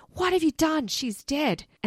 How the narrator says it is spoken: Jody screaming

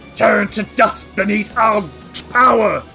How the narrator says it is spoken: he snarls and says

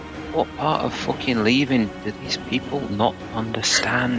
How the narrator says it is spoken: Mortimer is going to mutter to himself

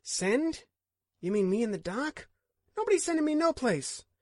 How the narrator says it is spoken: Jared said sharply

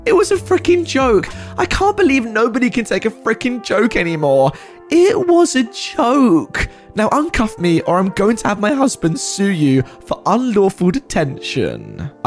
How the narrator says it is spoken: she lost it and started screaming over and over again

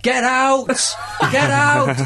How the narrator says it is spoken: everyone shouts

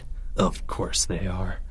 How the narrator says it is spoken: muttered Leo

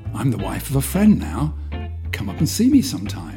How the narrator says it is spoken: said Margaret brightly

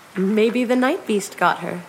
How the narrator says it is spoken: said Mariella, laughing uneasily

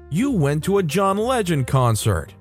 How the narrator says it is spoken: exclaimed

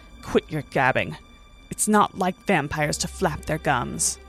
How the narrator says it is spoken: Rosamund spat

